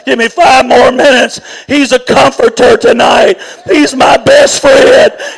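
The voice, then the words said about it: Cracking, strained voice. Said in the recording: “My voice is cracking up.”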